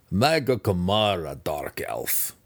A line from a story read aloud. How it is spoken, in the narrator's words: the Deep Gnome chuckled